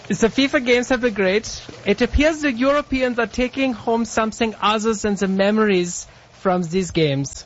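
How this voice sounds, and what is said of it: Put-on German accent. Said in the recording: “read the rest of this, in your German accent ... Oh, you would like me to read it in the accent.”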